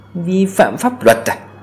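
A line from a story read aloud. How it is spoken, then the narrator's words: Cold, dismissive laugh. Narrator (Vietnamese): cười nhạt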